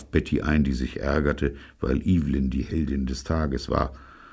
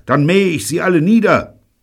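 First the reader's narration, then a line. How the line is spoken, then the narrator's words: Shouting. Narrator (German): schrie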